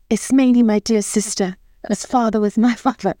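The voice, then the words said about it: Put-on British accent, theatrical. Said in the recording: “I did it in a British accent, because what else would you do Greek tragedy in but a British accent?”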